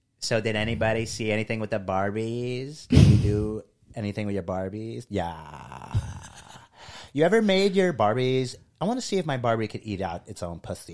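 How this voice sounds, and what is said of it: Impression of co-host's sultry voice. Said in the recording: “Like a phone sex operator. ... I'm gonna do an impression of you. ... That's how you talk to me. You say pussy like that. ... It's a great voice for on stage.”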